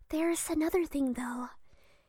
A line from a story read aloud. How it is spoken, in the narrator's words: Amy whispered apprehensively